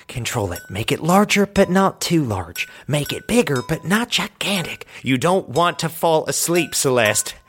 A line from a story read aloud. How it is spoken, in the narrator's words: She kept whispering herself